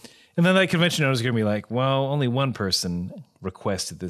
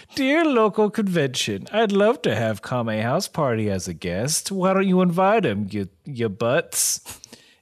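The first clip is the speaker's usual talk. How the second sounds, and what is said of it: Imitates another person's voice. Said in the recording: “this is a bad impersonation of you”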